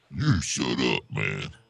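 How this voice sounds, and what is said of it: Very deep character voice. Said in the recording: “You got a very deep voice there.”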